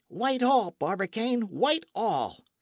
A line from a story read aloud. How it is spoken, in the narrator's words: a clear and merry voice, the voice of Michel Ardan, exclaiming in an accent of triumph